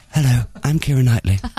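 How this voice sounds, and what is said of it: Keira Knightley impression. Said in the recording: “your Keira Knightley impression”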